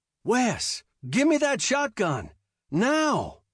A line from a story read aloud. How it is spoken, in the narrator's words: shouted